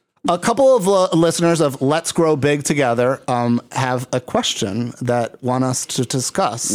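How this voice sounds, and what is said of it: Usual voice. Nothing is said of it.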